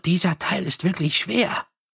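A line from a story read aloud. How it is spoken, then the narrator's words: Conversational whisper. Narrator (German): flüsterte Nobby im Plauderton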